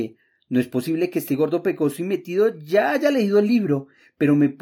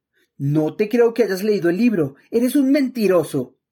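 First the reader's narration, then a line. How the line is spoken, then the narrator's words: Exclaimed. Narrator (Spanish): exclamé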